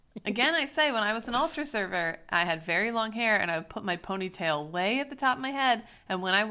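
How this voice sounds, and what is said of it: Usual voice. Nothing is said of it.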